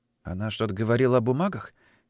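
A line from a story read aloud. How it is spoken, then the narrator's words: Quiet question. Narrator (Russian): Негромко спросил Женька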